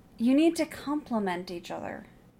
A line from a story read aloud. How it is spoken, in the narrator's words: Marianne said, sighing